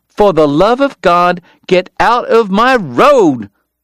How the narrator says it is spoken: he rounded on Kate, shouting

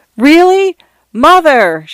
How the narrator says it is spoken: shouted

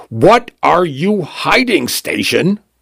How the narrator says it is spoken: she shouts finally, voice cracking

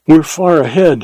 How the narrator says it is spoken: he panted

